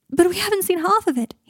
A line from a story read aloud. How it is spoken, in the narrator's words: he said, his voice taut with pain